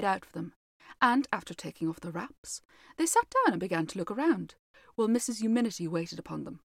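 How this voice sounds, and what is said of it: Usual voice. Nothing is said of it.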